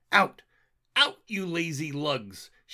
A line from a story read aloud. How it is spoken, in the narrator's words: laughingly yelled